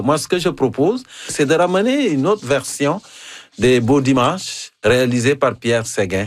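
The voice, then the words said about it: African accent in French. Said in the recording (French): “mon accent africain ... C'est encore plus savoureux avec ton accent africain”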